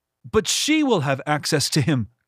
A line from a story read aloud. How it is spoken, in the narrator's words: Quiv whined